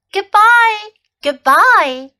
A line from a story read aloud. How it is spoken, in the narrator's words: Lamchop cried out